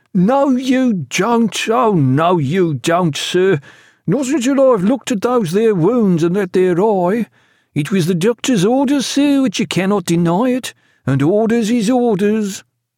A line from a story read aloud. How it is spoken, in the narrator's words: through the open door, Killick cried